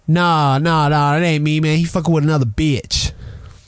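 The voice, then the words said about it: Imitates another person's voice, poorly. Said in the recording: “Wait, that wasn't a good impression... Okay, I'm not good. I'm not good at that.”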